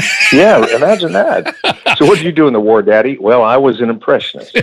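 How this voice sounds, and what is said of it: Usual voice. Nothing is said of it.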